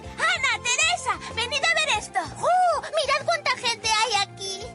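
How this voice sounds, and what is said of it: Castilian Spanish accent. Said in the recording (Spanish): “escuchamos a las hermanas con su acento original ... el espíritu español”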